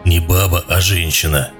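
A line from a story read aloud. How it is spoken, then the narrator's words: Hoarse correcting voice. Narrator (Russian): поправил хрипун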